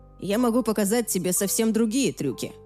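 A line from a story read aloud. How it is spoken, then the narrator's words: Grumbling. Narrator (Russian): проворчал Тоби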